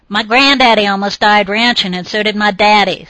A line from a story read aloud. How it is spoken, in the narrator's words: snarled the other